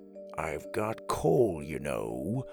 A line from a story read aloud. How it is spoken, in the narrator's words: he whispered